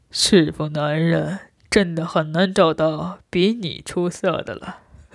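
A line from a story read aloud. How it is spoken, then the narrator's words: Sighing. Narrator (Chinese): 洪国平不禁叹道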